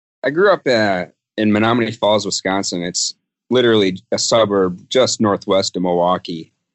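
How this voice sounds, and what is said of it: Wisconsin accent. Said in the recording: “I recognize that that accent ... the Wisconsin accent”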